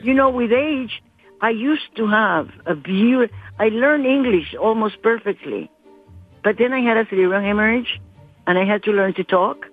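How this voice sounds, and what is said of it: Colombian-accented English. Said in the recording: “a lovely Colombian American ... my accent is not horrible? ... your accent's great. ... I learned to talk with an accent again.”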